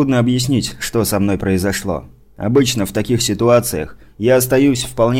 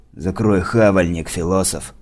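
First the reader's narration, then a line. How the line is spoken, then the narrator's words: Rude interruption. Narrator (Russian): грубо оборвали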